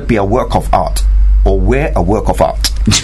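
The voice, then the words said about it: Imitated accent with emphatic intonation. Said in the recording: “With that kind of accent. ... With that kind of emphasis, really, isn't it? ... it's the intonation.”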